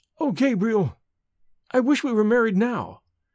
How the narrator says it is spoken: cried Evelyn in sudden distress

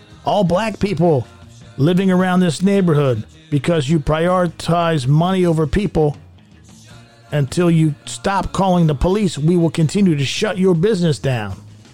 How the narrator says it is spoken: They yelled

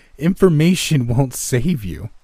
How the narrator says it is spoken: I forced out, bending into a deep belly laugh

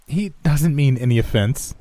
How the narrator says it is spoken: Amy said, echoing my uncomfortable giggles

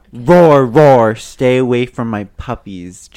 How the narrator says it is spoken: Jacob roared

